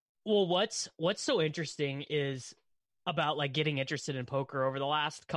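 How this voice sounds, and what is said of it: Usual voice. Nothing is said of it.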